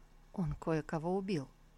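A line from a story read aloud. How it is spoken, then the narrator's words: Grim, after a pause. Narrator (Russian): Тантайцзинь помолчал, а потом, мрачно улыбнувшись, ответил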